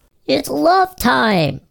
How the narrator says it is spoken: mayor screamed

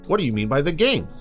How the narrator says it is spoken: asked Chris

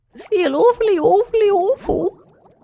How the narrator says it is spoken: moaned Julap in response

